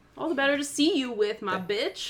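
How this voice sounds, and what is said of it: Big mama character voice. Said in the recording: “you do it in her big mama voice ... That was a great, great, great impression.”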